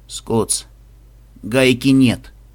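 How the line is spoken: Dejected voice. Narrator (Russian): упавшим голосом произнес мышь

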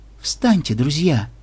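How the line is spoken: Soft gentle voice. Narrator (Russian): мягко сказала принцесса

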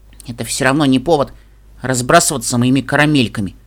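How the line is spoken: Grumbling young foal. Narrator (Russian): пробурчал жеребенок

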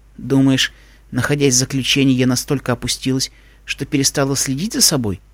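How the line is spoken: Cheerful question. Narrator (Russian): весело спросила

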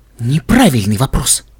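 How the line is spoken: Hiss. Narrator (Russian): прошипела Вельвет Ремеди

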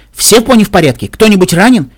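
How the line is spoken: Shouting. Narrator (Russian): крикнула

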